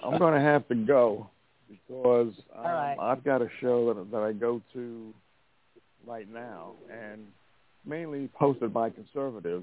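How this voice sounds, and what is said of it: New York accent. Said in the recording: “a New York accent ... everybody tells me that”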